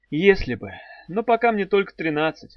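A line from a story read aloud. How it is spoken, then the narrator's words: Sighed. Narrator (Russian): вздохнула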